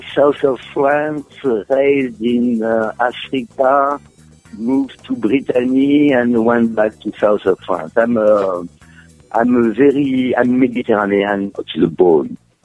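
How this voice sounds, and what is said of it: Mediterranean, Italo-French accent. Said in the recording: “your wonderful accent”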